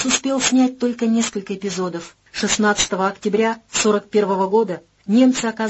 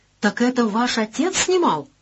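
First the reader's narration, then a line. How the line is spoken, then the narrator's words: Exclamation. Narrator (Russian): воскликнул Колобок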